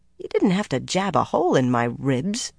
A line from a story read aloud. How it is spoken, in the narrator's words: Egwene muttered